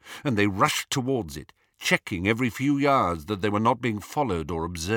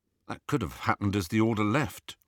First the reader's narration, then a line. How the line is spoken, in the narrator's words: Ron murmured back